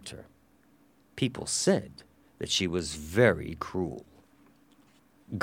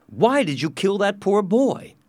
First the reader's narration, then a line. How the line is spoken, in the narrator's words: asked angrily